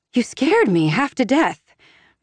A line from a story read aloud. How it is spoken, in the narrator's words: I gasp